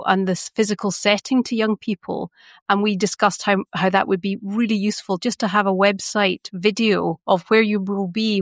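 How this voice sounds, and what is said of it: Scottish accent. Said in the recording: “I'm Scottish... a Scottish accent... a different auditory experience”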